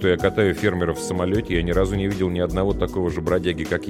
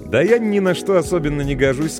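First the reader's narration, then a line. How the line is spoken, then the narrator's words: Cheerful. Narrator (Russian): сказал он вполне весело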